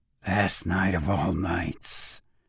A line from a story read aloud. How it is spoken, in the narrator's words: said the old woman softly